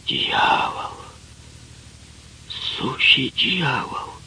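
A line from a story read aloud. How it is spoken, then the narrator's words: Whisper. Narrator (Russian): младший лейтенант Гасанзаде прошептал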